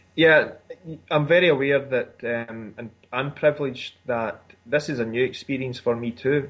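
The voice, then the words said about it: Scottish accent. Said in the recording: “I love your accent ... There is that Scottish accent, just pretty amazing stuff”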